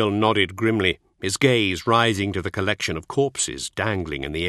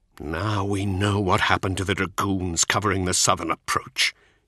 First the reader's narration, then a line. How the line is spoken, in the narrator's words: he said, his voice thick with revulsion